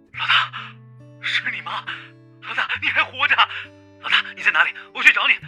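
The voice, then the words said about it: Trembling, disbelieving voice. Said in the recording (Chinese): “不敢相信的用颤抖的声音说道”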